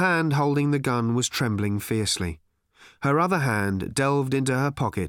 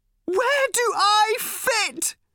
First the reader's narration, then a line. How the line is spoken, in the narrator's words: screamed Random suddenly